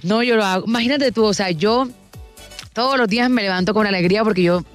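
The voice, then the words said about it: Energetic Caribbean Colombian accent. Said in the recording (Spanish): “el tono, la manera, tiene energía ... ese tonito, ese acento, esa manera de decirlo”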